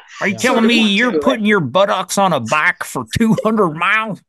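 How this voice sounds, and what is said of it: Put-on accent, stereotypical lawmaker voice. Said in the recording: “I don't know what accent that was, but that was fun. ... that's what we picture lawmakers to sound like.”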